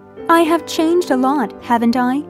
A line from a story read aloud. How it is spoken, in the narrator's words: she asked